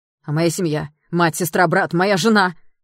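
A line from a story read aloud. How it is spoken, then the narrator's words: Shout. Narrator (Russian): закричал Даррелл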